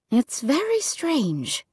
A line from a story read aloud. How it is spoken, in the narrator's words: she said softly